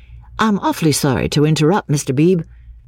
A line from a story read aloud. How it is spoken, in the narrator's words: said Freddy